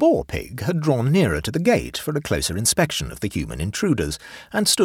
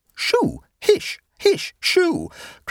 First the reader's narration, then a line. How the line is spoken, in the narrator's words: cried the ladies in chorus